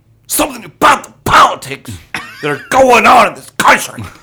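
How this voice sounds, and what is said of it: Angry comedian impression. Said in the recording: “Lewis Black's the angry one ... This is my imitation ... That was fucking spot on.”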